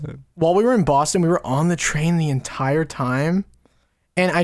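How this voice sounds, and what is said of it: Usual voice. Nothing is said of it.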